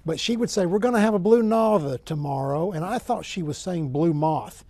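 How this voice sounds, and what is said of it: Strong Oklahoma accent. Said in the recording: “I have a strong Oklahoma accent.”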